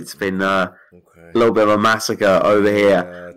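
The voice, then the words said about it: Speaks in a put-on accent. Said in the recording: “Don't say massacre in that accent, man. ... That made it sound worse.”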